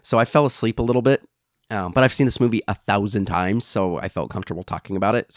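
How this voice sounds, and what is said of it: Slightly off voice, sounds like a cold. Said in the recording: “my voice is a little off. I've got a little bit of a cold.”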